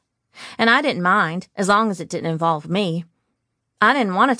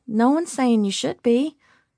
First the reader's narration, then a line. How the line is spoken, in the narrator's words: Cassidy said, her voice soothing